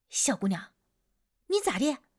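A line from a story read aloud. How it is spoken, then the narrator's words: Older woman asking. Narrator (Chinese): 对面的大姨立刻就问我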